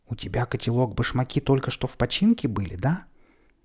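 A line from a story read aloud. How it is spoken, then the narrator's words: Excited revelatory whisper. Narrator (Russian): прошептал так, словно великое открытие сделал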